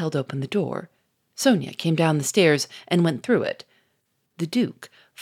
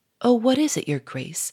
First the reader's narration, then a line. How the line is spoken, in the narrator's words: said Sonia anxiously